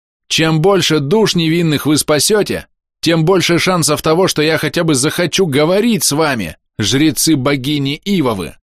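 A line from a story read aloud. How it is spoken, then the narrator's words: Shouting skyward. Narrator (Russian): прокричал я в дымное небо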